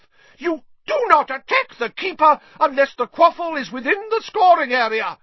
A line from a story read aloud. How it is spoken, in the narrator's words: shrieked